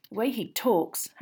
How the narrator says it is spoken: Harry muttered

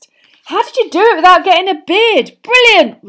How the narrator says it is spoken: roared George

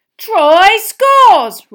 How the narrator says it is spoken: roared Bagman

